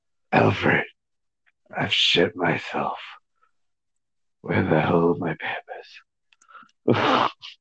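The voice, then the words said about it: Gravelly Batman character voice. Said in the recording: “in a Batman voice ... he was pretty good Batman”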